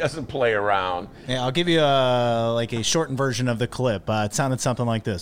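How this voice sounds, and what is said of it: Usual voice. Nothing is said of it.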